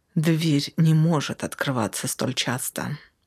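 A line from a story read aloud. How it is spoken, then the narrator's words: Through gritted teeth. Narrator (Russian): сквозь зубы объяснила ЛСД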